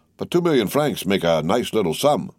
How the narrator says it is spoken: replied Morcerf

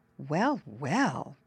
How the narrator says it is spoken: Brownie Beaver murmured

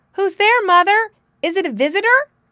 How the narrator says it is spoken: he called out

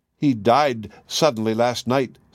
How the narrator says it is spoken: said they

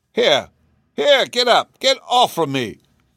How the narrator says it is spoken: cried a faint voice

